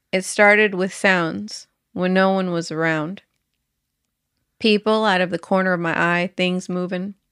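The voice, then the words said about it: Strong Southern US accent. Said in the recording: “your accent's really coming out ... the South has arrived”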